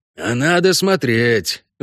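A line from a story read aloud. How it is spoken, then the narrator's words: Sighing. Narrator (Russian): вздохнул Весемир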